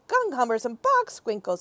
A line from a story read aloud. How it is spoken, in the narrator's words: he cried